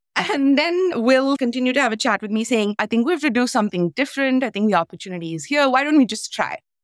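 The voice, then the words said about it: Non-native English accent. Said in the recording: “people commenting on my accent, commenting on how I sound, asking me where I am from ... as an immigrant in Canada”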